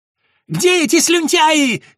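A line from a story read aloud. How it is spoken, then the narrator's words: Frantic scream. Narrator (Russian): истошным голосом завопила мать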